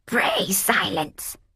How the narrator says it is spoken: croaked a hollow voice, which sounded artificial, like that of a tin robot

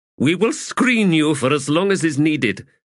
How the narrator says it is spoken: Abrastel said firmly

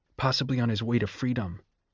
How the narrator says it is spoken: said Sejanus in a strained voice

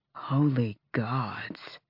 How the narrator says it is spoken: Lorkin breathed

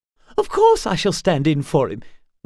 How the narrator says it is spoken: Willa snapped

